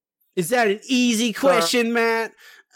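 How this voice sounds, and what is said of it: Imitates another person's voice. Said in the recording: “It's my impersonation of you.”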